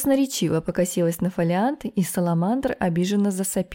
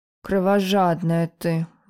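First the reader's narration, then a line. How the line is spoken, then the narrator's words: Grumble. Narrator (Russian): буркнул Саламандр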